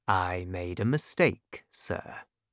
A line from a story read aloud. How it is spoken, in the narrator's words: answered calmly